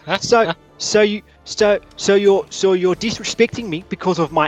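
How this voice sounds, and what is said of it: Put-on South African accent. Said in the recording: “your South African accent ... I'm actually very interested in your accent. It's unusual.”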